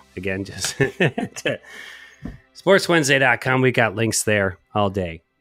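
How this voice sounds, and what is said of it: Rough, raspy worn-out voice. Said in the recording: “my voice is getting worse and worse ... It sounds rough and rugged and raw.”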